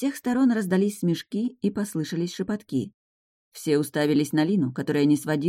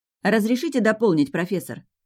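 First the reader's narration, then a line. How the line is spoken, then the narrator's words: Loud. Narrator (Russian): громко сказала я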